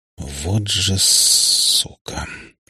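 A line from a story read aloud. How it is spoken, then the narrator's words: Angry mutter through teeth. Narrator (Russian): процедил в сердцах Безликий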